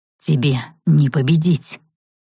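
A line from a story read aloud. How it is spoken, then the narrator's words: Growled. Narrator (Russian): прорычал вампир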